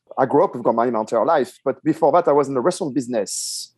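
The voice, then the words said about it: Strong French accent. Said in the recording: “a New Yorker with a strong French accent”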